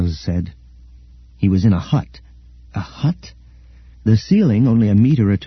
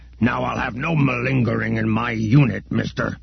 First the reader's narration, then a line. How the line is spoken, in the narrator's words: grunted Ugbuzz